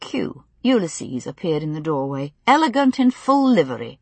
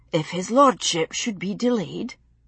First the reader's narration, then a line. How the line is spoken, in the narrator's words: Jocasta murmured in her ear